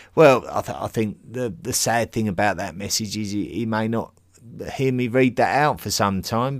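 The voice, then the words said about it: Essex English accent. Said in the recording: “love your Essex accent”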